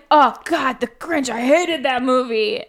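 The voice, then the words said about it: Imitates another person's voice. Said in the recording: “That was my Ken impression. ... Was it spot on? ... Spot on.”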